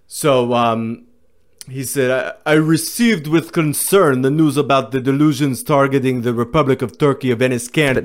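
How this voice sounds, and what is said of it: Put-on Turkish accent. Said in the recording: “This is Turkish ...? ... This is my Turkish accent. You got British ... and now you're getting Turkish”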